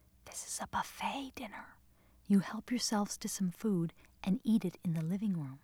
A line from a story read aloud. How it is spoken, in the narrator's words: Gleason bent down and whispered to us